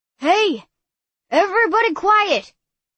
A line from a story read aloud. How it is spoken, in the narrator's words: Uncle Joe shouted